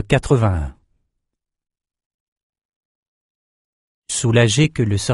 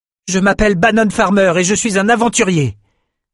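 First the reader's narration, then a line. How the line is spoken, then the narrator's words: Loud self-encouraging voice. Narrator (French): dit-il à voix haute pour se redonner du cœur au ventre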